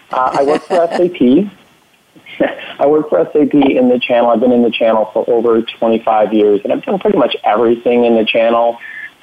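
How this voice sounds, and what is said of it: Thick Canadian accent. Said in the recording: “my thick Canadian accent”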